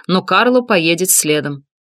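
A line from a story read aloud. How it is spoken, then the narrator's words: Firm announcement. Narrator (Russian): твердым голосом объявил Алессандро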